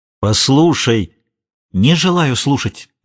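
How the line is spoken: Resolute exclamation. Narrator (Russian): решительно воскликнула Магдалена

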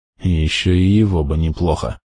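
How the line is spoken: Mutter. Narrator (Russian): пробормотал Том

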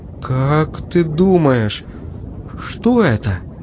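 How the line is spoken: Trembling question. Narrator (Russian): спросил дрожащим голосом

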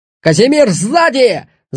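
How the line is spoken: Yelled. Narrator (Russian): заорал он

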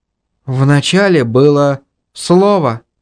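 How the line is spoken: Sighing. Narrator (Russian): вздохнула Инга

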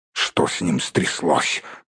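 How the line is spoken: Grumbling. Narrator (Russian): проворчал Торин

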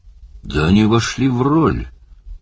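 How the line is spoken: Forced, strained words. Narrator (Russian): выдавил из себя Барни

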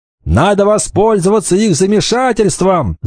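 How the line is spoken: Shout. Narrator (Russian): закричал Кикахе

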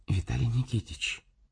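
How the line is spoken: Worried whisper. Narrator (Russian): озабоченный шепот

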